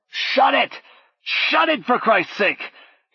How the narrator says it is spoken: Paul bellowed

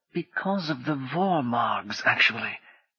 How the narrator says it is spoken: Brummond said in a confidential whisper

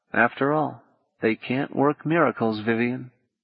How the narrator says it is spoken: he murmured

